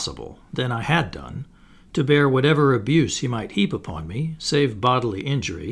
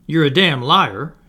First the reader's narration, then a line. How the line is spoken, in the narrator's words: exclaimed passionately